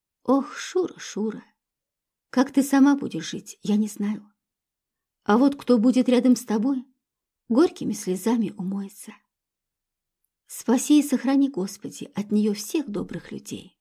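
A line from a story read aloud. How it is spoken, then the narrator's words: Sorrowful, quiet, sighing. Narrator (Russian): Старушка вздохнула и скорбно, тихо проговорив вслед ушедшей внучке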